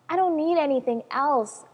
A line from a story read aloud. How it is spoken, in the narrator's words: I cried